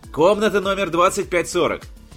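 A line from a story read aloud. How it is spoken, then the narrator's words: Shouted. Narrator (Russian): крикнул он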